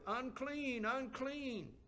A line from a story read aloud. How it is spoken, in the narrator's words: they shouted